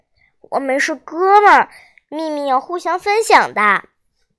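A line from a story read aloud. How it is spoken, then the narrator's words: Excited, pleading. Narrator (Chinese): 胡小图像打了兴奋剂一样活蹦乱跳，不停的哀求道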